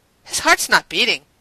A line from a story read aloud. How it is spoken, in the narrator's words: Carson snapped out